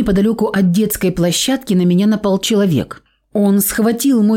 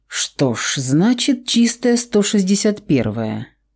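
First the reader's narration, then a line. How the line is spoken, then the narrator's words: Muttered. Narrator (Russian): пробормотал Громов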